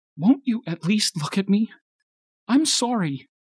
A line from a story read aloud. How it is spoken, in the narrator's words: cried